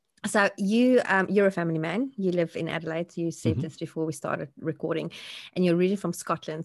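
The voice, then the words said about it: Slightly croaky voice. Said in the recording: “my voice is a little bit crocky today”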